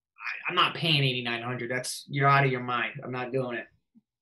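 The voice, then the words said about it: Northeastern US accent. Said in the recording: “That Northeast accent just came out a little bit there. ... When I get aggravated, it comes out.”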